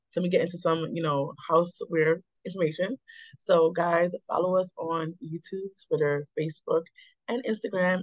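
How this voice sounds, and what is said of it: Strained voice going in and out. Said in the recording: “Sorry about my voice, guys. It's been a struggle week. So my voice might go in and out.”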